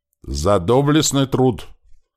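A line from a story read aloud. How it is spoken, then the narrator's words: Solemn and loud. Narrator (Russian): торжественно и громко повторил сотник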